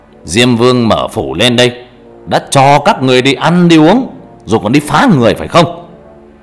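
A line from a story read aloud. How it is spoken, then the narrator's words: Shouting. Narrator (Vietnamese): Thầy quát lên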